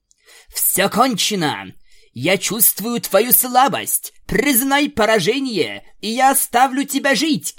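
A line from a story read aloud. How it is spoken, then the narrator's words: Shouting. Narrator (Russian): кричала Аланис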